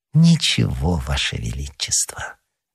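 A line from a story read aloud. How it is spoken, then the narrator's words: Very tender voice. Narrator (Russian): ответил кардинал самым ласковым голосом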